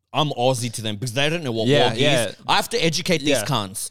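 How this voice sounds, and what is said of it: Australian accent. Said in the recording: “it's cute when they hear my accent ... he's Australian because of the accent”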